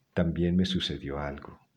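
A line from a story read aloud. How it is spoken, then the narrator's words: Plain. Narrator (Spanish): dijo Maylene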